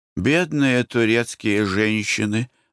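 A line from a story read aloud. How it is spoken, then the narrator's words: Sighing. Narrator (Russian): вздохнула Глафира Семеновна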